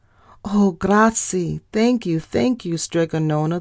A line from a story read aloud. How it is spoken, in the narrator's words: the people cried